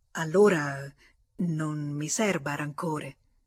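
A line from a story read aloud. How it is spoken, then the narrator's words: Stammering, at a loss. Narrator (Italian): non trovando le parole adatte, balbettò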